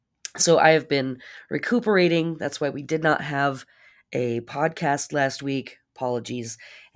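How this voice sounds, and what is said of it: Congested, hoarse voice. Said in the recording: “your horse host ... I am very congested. My voice is not at 100% level.”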